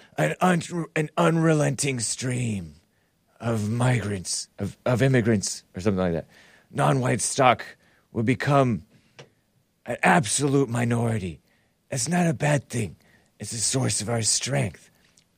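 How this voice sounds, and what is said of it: Poor impression of Joe Biden. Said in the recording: “That's not a very good impression, but that's Sleepy Joe.”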